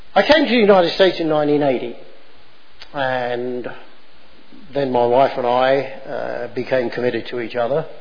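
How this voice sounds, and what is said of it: English accent. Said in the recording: “having the accent and my birth in England”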